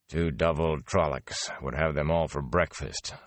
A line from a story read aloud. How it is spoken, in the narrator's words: Land muttered